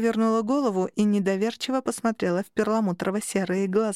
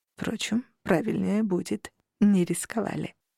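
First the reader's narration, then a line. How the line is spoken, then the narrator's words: Whispered aside. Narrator (Russian): добавил шепотом хранитель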